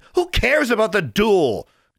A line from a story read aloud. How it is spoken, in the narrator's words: Anna shouted